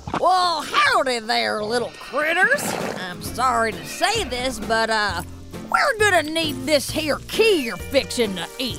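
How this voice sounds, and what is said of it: Put-on cowboy drawl. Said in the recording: “talking like a cowboy”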